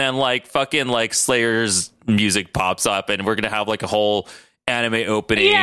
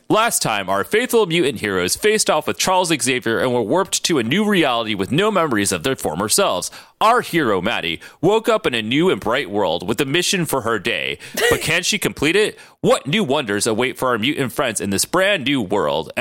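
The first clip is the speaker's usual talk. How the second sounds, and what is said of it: Pokemon anime announcer voice. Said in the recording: “Pokemon announcer voice.”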